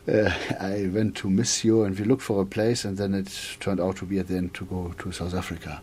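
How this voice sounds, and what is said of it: English with German accent. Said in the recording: “English with a German accent”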